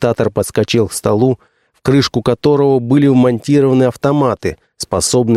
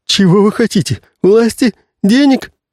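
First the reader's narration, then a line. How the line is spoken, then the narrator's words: Sudden high squeak. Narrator (Russian): неожиданно тонко запищал новый Кортес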